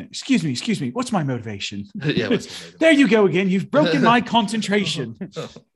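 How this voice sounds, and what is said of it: Thick English accent. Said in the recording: “break into a thick English accent.”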